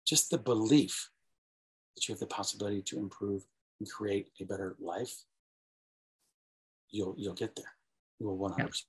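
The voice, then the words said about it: Low, sleepy, soothing voice. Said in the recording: “Did my voice go down here again?... It did... The voice goes down. Very, very. It's like nap time.”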